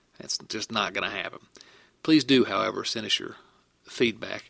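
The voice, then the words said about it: Southern American accent. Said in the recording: “talk with less of a southern accent”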